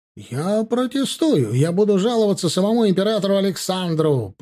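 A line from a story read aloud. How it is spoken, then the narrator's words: Shouting. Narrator (Russian): прокричал тот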